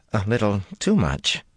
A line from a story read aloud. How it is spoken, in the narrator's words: he quavered uncertainly